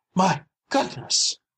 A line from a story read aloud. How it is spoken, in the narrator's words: gasped Mrs